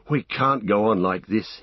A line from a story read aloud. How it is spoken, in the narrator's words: he panted